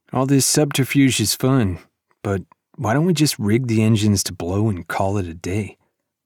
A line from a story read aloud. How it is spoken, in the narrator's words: Rake sighed